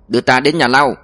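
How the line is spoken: Shout. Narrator (Vietnamese): quát

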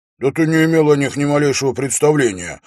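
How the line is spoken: Exclamation. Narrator (Russian): воскликнул он

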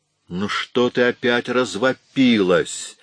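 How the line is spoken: Angry question. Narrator (Russian): сердито спросил Том

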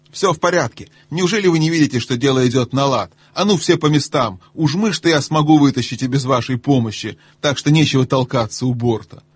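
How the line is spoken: Shouted. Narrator (Russian): морякам крикнул

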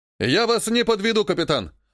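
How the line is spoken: Barking. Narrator (Russian): рявкнул Насрула

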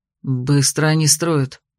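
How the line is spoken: Approving mutter. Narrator (Russian): одобрительно пробормотал Берест

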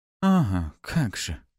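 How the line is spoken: Snide drawl. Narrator (Russian): ехидно протянула Пафи

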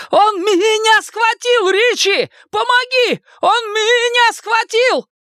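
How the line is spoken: Screaming. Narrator (Russian): Билл закричал

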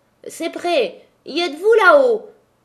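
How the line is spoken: Shouted. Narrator (French): cria la Maheude

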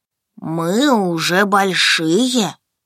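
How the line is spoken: Drawn-out. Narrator (Russian): протянул Данил

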